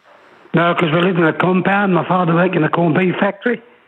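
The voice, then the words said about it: Distinctive, interesting accent. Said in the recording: “you got such an interesting accent”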